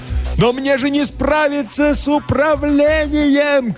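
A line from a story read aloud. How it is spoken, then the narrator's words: Shouting. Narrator (Russian): кричал я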